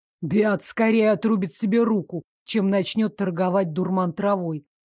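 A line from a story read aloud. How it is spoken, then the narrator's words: Snort under breath. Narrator (Russian): фыркнул себе под нос Дейк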